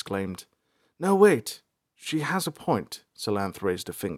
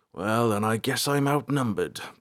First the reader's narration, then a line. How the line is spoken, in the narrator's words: Balthar grumbled